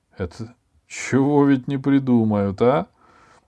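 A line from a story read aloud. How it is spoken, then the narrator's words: Wheezing loudspeaker voice. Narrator (Russian): захрипел динамик и голосом катарсиса сказал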